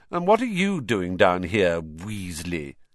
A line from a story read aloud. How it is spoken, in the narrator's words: he sneered